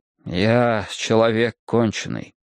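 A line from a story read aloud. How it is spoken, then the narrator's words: Mournful voice. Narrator (Russian): говорю я им скорбным голосом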